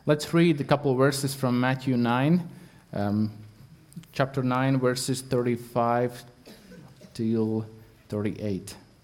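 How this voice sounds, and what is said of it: Latvian accent in English. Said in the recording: “my English. I'm not English speaker. I'm Latvian ... You have an interesting accent ... my accent”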